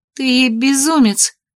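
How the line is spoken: Forced out in pain. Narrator (Russian): выдавила я, морщась от боли

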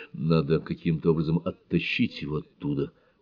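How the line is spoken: Whisper. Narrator (Russian): прошептал он

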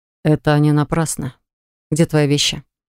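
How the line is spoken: Menacing mutter. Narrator (Russian): буркнул он грозно

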